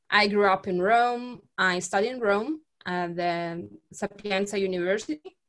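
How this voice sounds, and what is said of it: Italian accent. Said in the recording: “As you can listen from my accent, I'm from Italy.”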